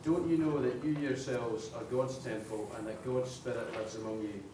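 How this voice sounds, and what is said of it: Scottish accent, from Edinburgh. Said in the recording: “Lovely accent. Where are you from in Scotland? ... From Edinburgh.”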